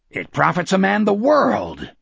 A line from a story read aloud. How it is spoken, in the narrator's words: Morgan shouted in the decaying room